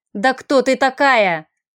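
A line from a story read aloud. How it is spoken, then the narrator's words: Desperate yell. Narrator (Russian): заорал в отчаянии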